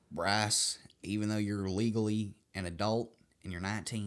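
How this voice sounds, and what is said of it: Put-on Southern accent. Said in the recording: “She has never, ever spoken in a Southern accent.”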